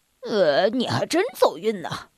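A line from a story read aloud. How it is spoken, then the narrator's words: Grumpy mutter. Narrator (Chinese): 格拉夫大叔没好气的嘟囔着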